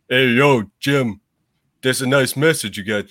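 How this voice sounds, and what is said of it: Imitates another person's voice. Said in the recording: “do my best Sylvester Stallone impression”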